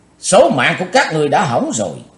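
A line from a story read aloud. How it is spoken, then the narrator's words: Loud shout. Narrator (Vietnamese): Cùng theo tiếng quát, Chí Tôn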